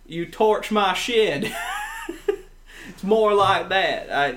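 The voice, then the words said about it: Put-on American Southern accent. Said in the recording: “Do a Southern accent for us ... Like George W. Bush.”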